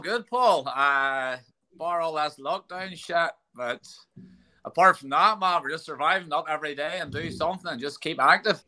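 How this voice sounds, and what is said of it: Ballymena accent. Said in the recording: “If you don't know from the accent, from Ballymena”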